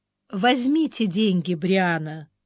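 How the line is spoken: Gentle, affectionate. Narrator (Russian): ласково произнесла Арис

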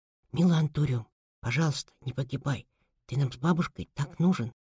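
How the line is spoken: Whisper. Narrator (Russian): прошептал

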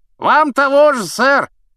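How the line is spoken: Shout. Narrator (Russian): крикнул рыцарь

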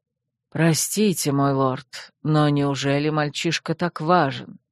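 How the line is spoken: Quiet inquiry. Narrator (Russian): негромко поинтересовался Сартес

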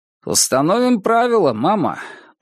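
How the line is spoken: Official voice. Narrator (Russian): произнес он официальным голосом

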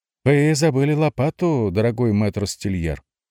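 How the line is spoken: Cheerful call across street. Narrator (Russian): весело окликнул его Барнаба, булочник, стоявший на другой стороне улицы

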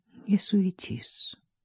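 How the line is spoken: Muffled, dull voice. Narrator (Russian): сказала глухо Катя

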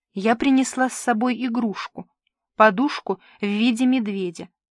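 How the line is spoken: Plain. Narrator (Russian): сказала Алина

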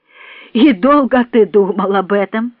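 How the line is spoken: Laughing question. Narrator (Russian): спросил он Льва Николаевича, продолжая смеяться

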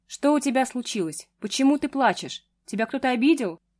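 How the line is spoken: Worried man's voice. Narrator (Russian): взволнованным голосом произнес мужчина

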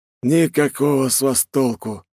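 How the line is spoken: Sighing young man. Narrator (Russian): вздохнул парень без паука

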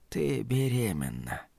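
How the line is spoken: Whisper. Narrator (Russian): прошептала она

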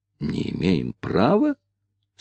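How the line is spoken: Slightly annoyed whispered question. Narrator (Russian): с легкой досадой переспросил Ричард, также шепотом

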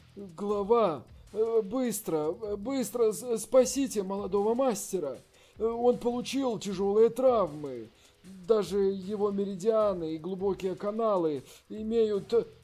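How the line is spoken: Sad voice. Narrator (Russian): сказал с грустным голосом

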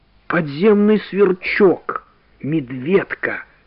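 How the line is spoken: Whispered. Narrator (Russian): прошептал Иван Гермогенович

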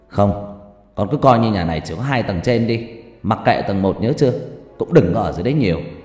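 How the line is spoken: Sharp snapping. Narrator (Vietnamese): Bố tôi gắt lên

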